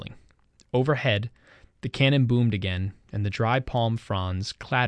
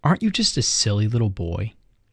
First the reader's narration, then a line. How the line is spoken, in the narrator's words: Simon answered him in the same silent voice